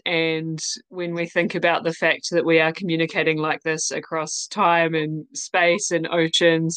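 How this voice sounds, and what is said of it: New Zealand accent. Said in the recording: “as you can hear, I'm in New Zealand. That's my accent.”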